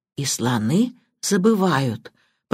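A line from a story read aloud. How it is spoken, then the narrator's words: Whisper. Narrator (Russian): прошептала Банч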